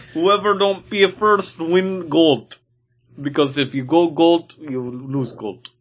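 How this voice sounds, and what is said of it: Put-on Russian accent. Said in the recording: “your Russian accent”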